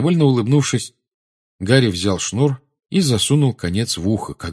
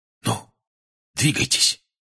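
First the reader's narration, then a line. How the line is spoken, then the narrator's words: Whispered. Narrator (Russian): шепнул Фред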